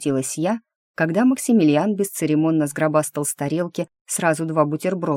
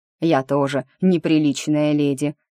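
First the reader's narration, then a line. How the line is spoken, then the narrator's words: Snorting, young heir. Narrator (Russian): хмыкнул наследничек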